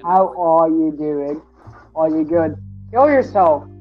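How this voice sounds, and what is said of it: Put-on Australian-sounding accent. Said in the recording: “British ... That is not British. ... Is Australian. ... Why do we keep going Australian?”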